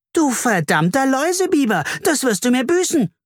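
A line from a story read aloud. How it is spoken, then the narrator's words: Screamed. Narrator (German): schrie Carla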